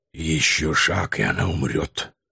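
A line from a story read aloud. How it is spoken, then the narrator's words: Hoarse beastly warning. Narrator (Russian): Хрипло предупредило меня горбатое существо с ужасающими клыками, более всего походившее на серую гиену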